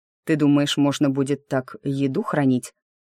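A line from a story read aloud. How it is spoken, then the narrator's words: Plain. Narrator (Russian): спросил он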